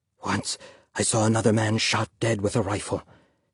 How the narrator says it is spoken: his father whispered

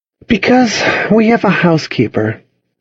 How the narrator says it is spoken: she said, sighing

